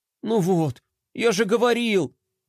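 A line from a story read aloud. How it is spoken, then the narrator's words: Sigh. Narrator (Russian): вздохнул Флай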